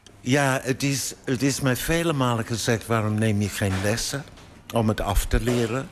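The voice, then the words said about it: British accent speaking Dutch. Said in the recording (Dutch): “Brits... Dat accent”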